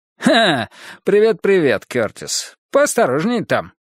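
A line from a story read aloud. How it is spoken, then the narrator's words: Brisk cheerful tone. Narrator (Russian): бодро сказал он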